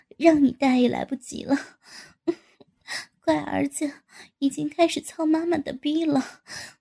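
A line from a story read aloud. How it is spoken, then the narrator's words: Laughing. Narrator (Chinese): 高志新笑道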